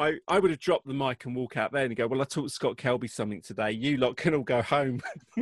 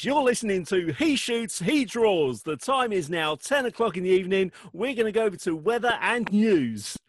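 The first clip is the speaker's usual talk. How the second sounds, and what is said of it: Cheesy British radio DJ voice. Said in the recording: “the British DJ voice ... The cheesy DJ voice.”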